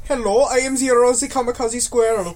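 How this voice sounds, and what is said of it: Made-up squirrel character accent. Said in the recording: “What accent is that? ... It is my squirrel accent.”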